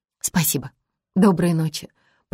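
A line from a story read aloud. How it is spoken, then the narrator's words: Whispered. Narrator (Russian): прошептала она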